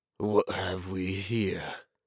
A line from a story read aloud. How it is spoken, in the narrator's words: Borvin drawled